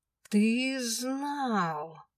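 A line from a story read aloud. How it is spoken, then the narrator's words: Accusing, through gritted teeth. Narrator (Russian): обвинительно процедила я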